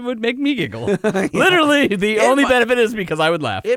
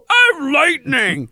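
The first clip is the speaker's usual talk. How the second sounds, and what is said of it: Mocking funny-voice impression of co-host. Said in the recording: “You can impersonate me. ... All you want and do that funny voice.”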